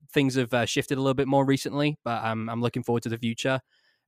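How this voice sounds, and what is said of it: Non-local accent. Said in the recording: “you may have guessed from the accent, I'm not from uh, Atlanta.”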